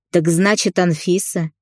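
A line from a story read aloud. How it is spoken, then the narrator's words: Short laugh. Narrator (Russian): хохотнул отец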